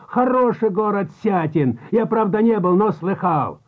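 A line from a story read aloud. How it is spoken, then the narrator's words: Shouting. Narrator (Russian): опять закричал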